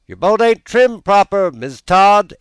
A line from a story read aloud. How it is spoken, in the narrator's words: exclaimed a voice from shore